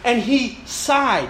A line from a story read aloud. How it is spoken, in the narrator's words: Jesus sighed deeply in his spirit and saith